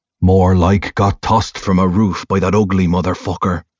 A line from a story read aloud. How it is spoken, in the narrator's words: Rowan snarls